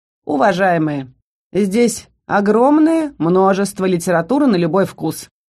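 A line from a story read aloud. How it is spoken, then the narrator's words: Dry. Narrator (Russian): проговорил он сухо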